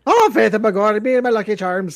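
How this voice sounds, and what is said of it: Put-on Irish accent. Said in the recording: “I don't know what that accent was. ... Yeah, that was a bit Irish there. ... That was Irish.”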